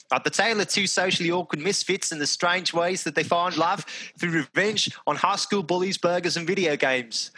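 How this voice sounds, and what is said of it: Good put-on Australian accent. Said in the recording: “that was a really good Australian accent... That was very good Australian accent... So that sounded very, very good to me.”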